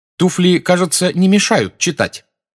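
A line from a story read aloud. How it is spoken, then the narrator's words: Irritated question. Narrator (Russian): раздраженно спросила блондинка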